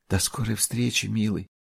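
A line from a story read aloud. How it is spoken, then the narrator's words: Whispered. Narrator (Russian): прошептала Фионелла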